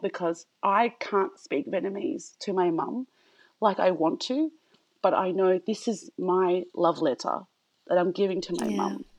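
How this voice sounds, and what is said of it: Emotional, tearful voice. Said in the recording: “I'm getting emotional ... You're making me cry.”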